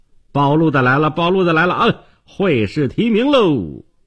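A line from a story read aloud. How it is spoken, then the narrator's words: Herald shouting announcement. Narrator (Chinese): 暴露的就进门喊道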